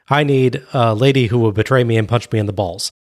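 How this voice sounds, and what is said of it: Imitates another person's voice. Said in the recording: “my DDP impersonation”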